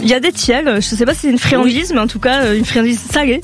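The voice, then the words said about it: Southern French accent. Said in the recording (French): “dans le sud, à ouais. 7, vu l'accent que j'ai”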